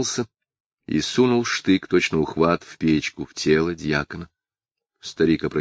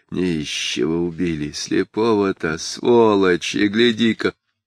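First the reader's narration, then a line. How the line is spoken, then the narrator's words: Muffled muttering man. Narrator (Russian): За спиной у Сангина мужчина глухо бормотал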